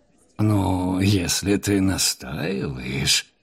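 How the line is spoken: Grumbled. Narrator (Russian): проворчал Абдулла

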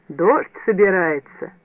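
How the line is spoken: Joyful. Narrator (Russian): Ван Брандт радостно сказал

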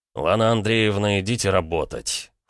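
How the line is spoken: Cold, losing temper. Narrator (Russian): холодно проговорил Ромка, начиная выходить из себя

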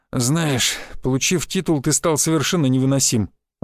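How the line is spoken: Sighing. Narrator (Russian): вздохнул Шишаков

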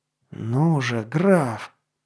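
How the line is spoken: Muffled growl. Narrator (Russian): глухо прорычал он

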